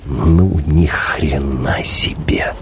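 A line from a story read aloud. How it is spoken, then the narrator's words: Involuntary mutter. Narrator (Russian): Против воли бормочу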